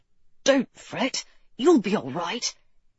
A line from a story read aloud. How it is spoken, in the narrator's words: he'd leaned to whisper in her ear